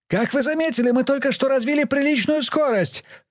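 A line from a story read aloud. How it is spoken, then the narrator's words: Shout. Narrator (Russian): крикнул Бонхёфер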